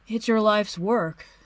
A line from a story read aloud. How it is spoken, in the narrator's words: Steve says sleepily